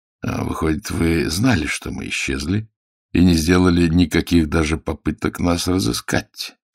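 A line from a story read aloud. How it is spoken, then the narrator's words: Icy question. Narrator (Russian): спросил он ледяным тоном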